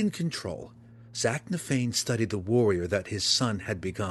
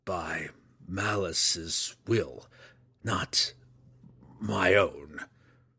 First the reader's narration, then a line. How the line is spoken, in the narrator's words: Zach Nafane growled